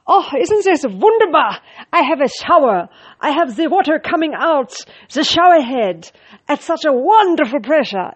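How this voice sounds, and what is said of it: Weird fluctuating put-on accent. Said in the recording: “I started having this accent ... I had this weird accent fluctuating and God knows what sort of accent it was”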